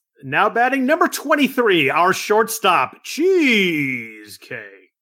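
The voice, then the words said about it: Stadium PA announcer voice. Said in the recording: “separate PA announcer voice? Like, do you make your voice like now betting?”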